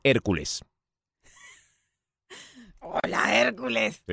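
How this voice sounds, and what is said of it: Loud commanding Schwarzenegger-style voice. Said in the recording (Spanish): “Como Schwarzenegger ... Le hablo fuerte”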